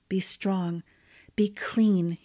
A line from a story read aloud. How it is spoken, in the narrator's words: he whispered